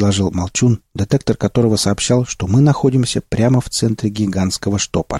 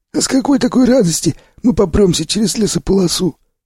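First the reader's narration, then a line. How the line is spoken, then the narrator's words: Asked. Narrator (Russian): поинтересовался Сиплый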